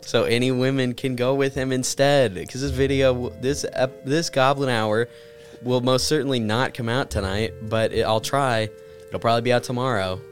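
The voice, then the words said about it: Voice sounds a little sick. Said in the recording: “I'm sick a little bit still. You can hear it in my voice... I can definitely hear it, and it's going to come across in the audio for sure... You're less nasally than I am... I sound sick”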